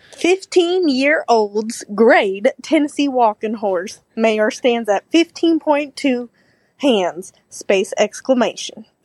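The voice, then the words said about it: Put-on Southern US accent. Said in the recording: “I'm going to do my southern accent.”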